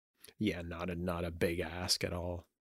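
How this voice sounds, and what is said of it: Sarcastic tone. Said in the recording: “Was that sarcasm there? It was sarcasm, right? ... A little bit. Yeah.”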